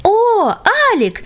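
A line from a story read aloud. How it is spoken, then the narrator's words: Joyful exclamation in unison. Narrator (Russian): Радостно воскликнули друзья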